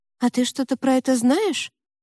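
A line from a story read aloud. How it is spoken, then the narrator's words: Naive-toned question. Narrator (Russian): наивным тоном уточнила Ева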